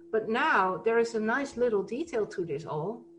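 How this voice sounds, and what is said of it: Sarcastic tone. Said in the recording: “I'm saying this very sarcastically,”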